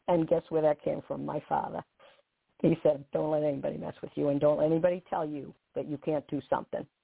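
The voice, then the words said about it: Boston accent. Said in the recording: “my Bostonian accent”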